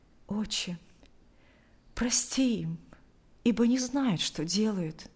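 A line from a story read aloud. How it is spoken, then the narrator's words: Quiet. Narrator (Russian): тихо произнес Алексей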